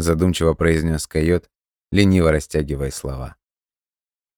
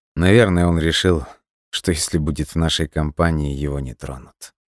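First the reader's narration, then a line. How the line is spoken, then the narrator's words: Grim smirking voice. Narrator (Russian): мрачно усмехнулся Дима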